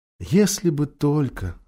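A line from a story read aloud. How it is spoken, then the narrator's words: Sigh. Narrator (Russian): вздохнула Люси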